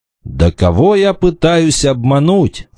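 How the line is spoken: Exclaiming. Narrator (Russian): в конце концов воскликнул Вольф

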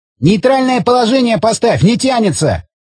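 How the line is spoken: Shout. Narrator (Russian): крикнул он

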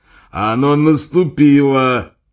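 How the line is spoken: Angry repetition. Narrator (Russian): повторил маршал сердито

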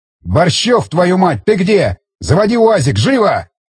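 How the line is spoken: Officer yelling. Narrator (Russian): заорал офицер

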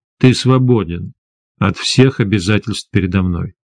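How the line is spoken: Calm reply. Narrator (Russian): спокойно ответил Гессер

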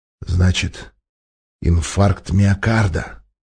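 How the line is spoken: Menacing growl, then whisper. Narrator (Russian): угрожающе прорычал гигант, и тихо прошептал

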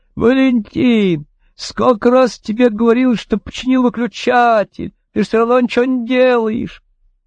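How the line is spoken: Wife shouting from window. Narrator (Russian): Жена Катца кричала из окна

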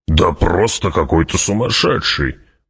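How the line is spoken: Gruff mutter. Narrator (Russian): буркнул барон

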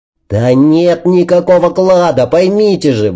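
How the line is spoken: Shout. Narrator (Russian): выкрикнул

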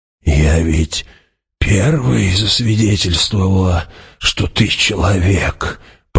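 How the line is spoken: Mumbled. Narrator (Russian): пробормотала она

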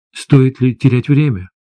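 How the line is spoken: Timid question. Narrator (Russian): робко спросил я

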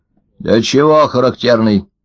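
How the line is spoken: Stern, old man. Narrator (Russian): строго спросил старик Ложкин

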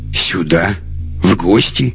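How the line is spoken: Contemptuous scoff. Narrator (Russian): Лекс презрительно хмыкнул

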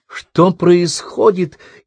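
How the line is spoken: Frightened squeak. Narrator (Russian): испуганно пискнула Карен

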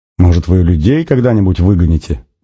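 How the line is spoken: Laughing. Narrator (Russian): Не удержавшись, засмеялся Нанос

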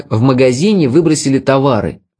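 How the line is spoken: Excited exclamation. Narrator (Russian): воскликнул я, воодушевляясь

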